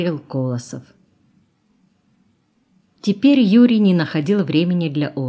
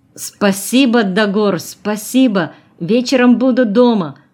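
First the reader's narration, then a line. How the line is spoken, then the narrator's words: Sudden shout. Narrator (Russian): опомнившись, крикнул Юрий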